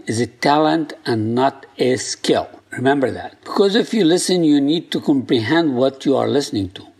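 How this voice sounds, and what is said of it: Non-native English accent. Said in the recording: “With my accent, my English is not easy”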